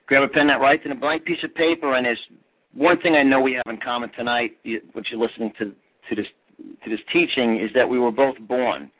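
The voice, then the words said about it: New York accent. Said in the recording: “I was born and raised in New York, as you guys will hear my accent.”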